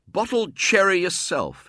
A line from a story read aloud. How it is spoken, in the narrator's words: he said indignantly